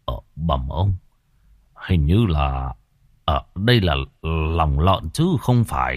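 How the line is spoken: Old man's puzzled mutter. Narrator (Vietnamese): lão Khâm khẽ cau mày lẩm bẩm

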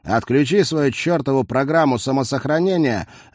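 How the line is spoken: Angry bark. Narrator (Russian): рявкнул он

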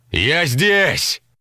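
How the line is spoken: Echoing shout in forest. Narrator (Russian): Крикнул он, и его голос гулко разнесся между деревьями, поглощаясь хвойной глушью

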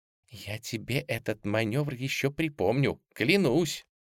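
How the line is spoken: Playful whisper in ear. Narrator (Russian): шутливо шепнула той прямо в ухо

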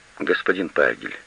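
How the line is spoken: Quiet. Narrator (Russian): тихо сказала она

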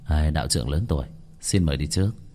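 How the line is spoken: Faint smile. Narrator (Vietnamese): hắn khẽ mỉm cười, nói

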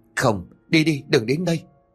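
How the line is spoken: Trembling, stammering mumble. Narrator (Vietnamese): cái miệng méo sạch run rẩy không thốt được câu, mà chỉ có thể ấp úng trong cổ họng

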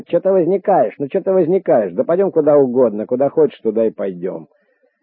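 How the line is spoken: Shouted. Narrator (Russian): Фидель как закричит

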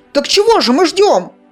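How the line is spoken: Exclaiming. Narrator (Russian): воскликнул Зар

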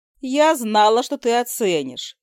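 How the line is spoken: Giggling. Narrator (Russian): хихикнула леди Нерта

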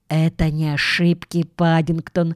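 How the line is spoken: Whisper. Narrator (Russian): шепнула Джуди

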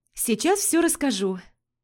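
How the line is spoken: Happy smiling promise. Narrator (Russian): пообещала радостно улыбаясь

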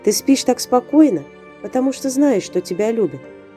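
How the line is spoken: Tender whisper. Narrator (Russian): прошептала Виктория

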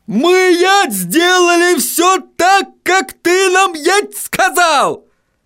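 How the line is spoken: Sudden yell. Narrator (Russian): заорал вдруг господин Тюльпан

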